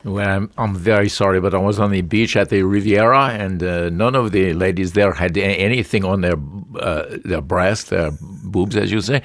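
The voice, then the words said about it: Put-on French accent. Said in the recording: “Now there goes the accent. You know, you start in France and you just begin to go back to South LA.”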